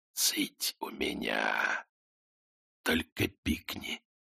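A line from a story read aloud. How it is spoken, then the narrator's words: Quiet commanding whisper. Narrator (Russian): Тихий шепот приказал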